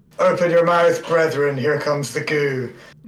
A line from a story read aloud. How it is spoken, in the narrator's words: I shout Gehag Belagis